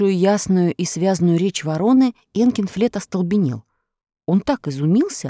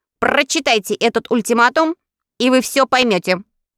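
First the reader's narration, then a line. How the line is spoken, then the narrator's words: Cold objection. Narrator (Russian): холодно возразила Каггикар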